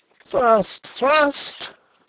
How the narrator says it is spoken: cried Rupert again

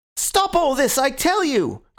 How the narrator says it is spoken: cried Gregory with frantic face and hands

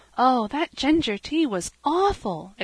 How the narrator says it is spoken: exclaimed poor Cecily

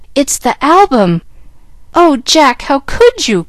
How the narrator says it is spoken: cried Jill, dismayed at the sight of the precious book so maltreated by the owner

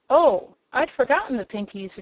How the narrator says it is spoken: exclaimed the girl

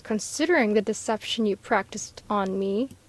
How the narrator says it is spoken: growled the doctor

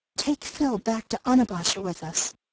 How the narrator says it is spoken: she whispered

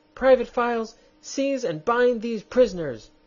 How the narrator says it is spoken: screamed the queen

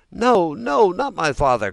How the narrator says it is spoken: cried Pinocchio, wild with terror, but as he screamed, the gold pieces tinkled together in his mouth

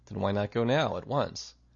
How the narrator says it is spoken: He sighed

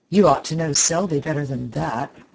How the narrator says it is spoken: growled Clifford behind the door

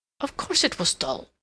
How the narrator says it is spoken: William said sulkily

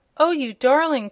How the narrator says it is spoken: cried Trot

